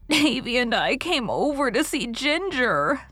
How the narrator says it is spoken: sobbed Dora

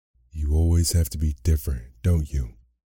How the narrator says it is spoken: Hermione said bitterly

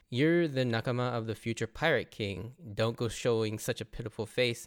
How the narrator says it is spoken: turned on his captain mode here as he calmly tells Nami

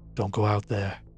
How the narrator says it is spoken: he whispered

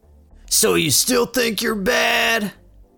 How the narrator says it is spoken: yells

